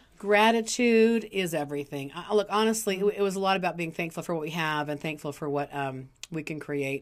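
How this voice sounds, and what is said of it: Slightly raspy voice. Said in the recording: “my voice got a little raspy, so if it sounds sexier than normal”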